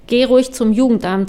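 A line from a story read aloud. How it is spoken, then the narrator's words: Loud, firm voice. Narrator (German): sagte sie laut und mit fester Stimme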